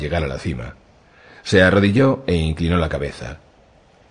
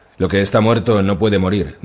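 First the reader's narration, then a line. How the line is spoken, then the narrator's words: Plain. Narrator (Spanish): dijo el sacerdote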